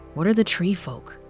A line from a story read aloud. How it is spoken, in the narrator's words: Tanaya whispered, her voice impatient and breathy